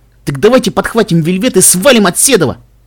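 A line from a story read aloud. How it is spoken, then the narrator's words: Shouting. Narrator (Russian): прокричал Каламити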